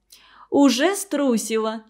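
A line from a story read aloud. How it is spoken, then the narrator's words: Laughing. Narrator (Russian): засмеялась Женя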